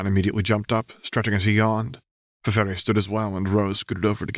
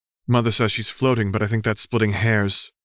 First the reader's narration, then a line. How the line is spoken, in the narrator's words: Rose replied